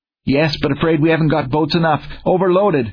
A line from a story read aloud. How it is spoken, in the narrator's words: was the gasped reply